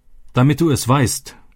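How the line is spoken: Shouting. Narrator (German): schrie er

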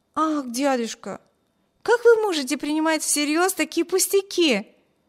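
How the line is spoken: Stung exclamation. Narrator (Russian): воскликнула задетая за живое Эми

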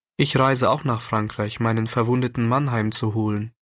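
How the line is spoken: Plain. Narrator (German): antwortete die Dame

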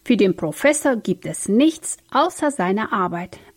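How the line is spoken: Plain answer. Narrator (German): antwortete Philipp

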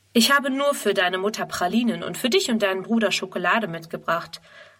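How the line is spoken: Plain reply. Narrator (German): antwortet

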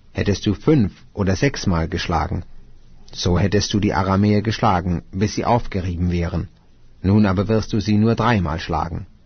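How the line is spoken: Angry speech. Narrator (German): wurde der Mann Gottes zornig auf ihn und sprach

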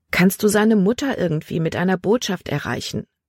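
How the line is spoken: Plain question. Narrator (German): fragte sie

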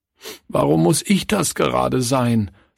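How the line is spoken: Sobbing. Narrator (German): schluchzte Klaus

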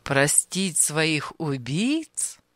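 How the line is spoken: Laughing. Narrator (Russian): Анисим рассмеялся

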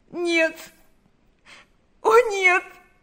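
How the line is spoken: Sobbing. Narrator (Russian): зарыдала она

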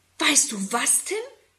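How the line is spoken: Excited question. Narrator (German): fragt Susi aufgeregt

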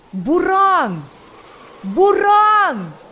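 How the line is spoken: Frantic screaming, several voices. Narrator (Russian): Истошно закричали несколько голосов

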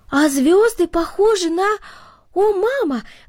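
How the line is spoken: Exclaiming, breaking off mid-sentence. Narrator (Russian): воскликнул Артур, прерывая себя посреди предложения

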